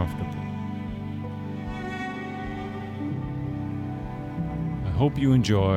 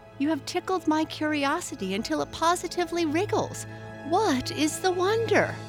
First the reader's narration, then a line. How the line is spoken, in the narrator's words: urged her chum gaily